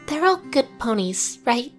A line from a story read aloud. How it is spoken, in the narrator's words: She asked in a stage whisper